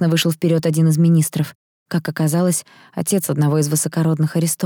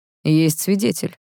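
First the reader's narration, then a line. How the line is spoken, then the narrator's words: Cold emperor. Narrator (Russian): холодно ответил император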